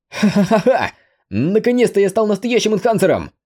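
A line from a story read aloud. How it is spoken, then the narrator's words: Hearty laughter. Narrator (Russian): От души засмеялся Кунг Цянь Юй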